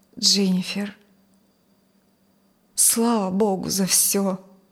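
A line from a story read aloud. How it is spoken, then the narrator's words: Trembling voice. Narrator (Russian): Джон дрожащим голосом сказал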